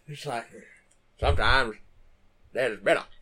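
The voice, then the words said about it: Put-on Maine accent. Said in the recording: “the best main accent.”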